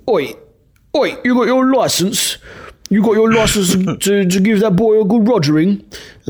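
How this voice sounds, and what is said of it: A different put-on British accent. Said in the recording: “The license guy is a different British guy. It's a different accent.”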